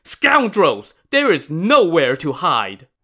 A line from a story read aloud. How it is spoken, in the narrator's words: shouted